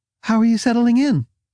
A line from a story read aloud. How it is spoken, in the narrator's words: Her voice was slightly higher than normal when she asked